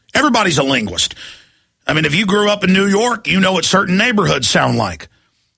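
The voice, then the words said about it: Old-style North Texas accent. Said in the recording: “a Dallas, Texas accent sounds like. Sounds like me. This is what a Dallas, old-style North Texas sounds like.”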